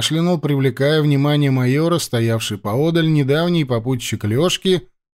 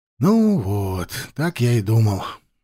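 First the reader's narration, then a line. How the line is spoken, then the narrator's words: Philosophical sigh. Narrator (Russian): философски вздохнул Лешка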